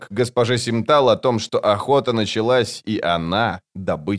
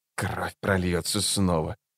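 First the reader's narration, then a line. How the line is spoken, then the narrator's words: Whisper. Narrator (Russian): прошептал убийца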